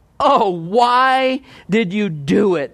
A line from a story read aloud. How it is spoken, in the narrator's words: They groaned